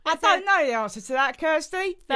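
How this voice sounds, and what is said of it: Exaggerated fake English accent. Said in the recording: “Your brain sounds like someone doing an impression of an English accent. ... That's like an American doing an English accent.”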